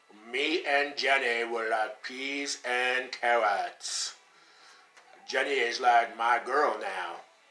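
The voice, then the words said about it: Forrest Gump character voice, middling. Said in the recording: “I can totally do Forrest Gump ... I'll give it like a 6 out of 10.”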